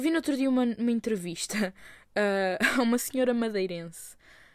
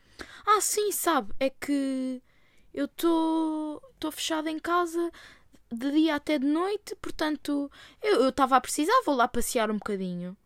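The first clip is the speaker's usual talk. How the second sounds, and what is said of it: Put-on Azorean Portuguese accent. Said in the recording (Portuguese): “sotaque madeirense que eu não sei fazer, eu só sei fazer o sotaque açoriano”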